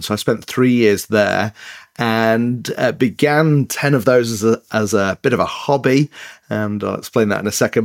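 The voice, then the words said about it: Mixed northern English accent. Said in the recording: “I have an accent. But yeah, it's an English accent. A place called Leeds in the north of England ... it's northern, but it's a bit mixed up”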